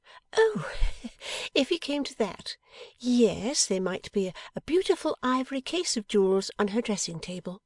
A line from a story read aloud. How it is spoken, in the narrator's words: Bella had replied, laughing